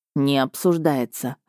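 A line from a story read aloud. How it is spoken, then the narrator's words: Stern. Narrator (Russian): ответил он строго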